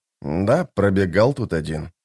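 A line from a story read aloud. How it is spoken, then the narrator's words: Quiet reply. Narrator (Russian): тихо ответил историк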